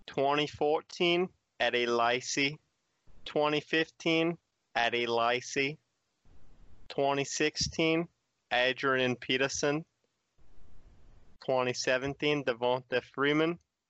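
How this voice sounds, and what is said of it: Put-on Australian accent, slipping. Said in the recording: “I feel like my accent, I'm starting to slip. Shock, Steve Irwin can't keep his accent for long ... when you were doing that Steve Irwin bit, your voice kind of sounded like molasses”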